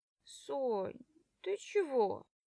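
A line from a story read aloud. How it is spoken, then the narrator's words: Sleepy question, girlfriend. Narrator (Russian): Сонным голосом спрашивает подружка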